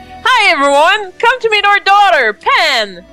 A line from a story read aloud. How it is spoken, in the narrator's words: exclaims